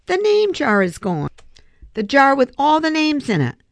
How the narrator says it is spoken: Ralph shouted at him

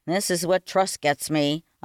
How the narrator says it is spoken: I muttered

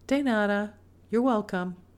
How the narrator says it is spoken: said Mama

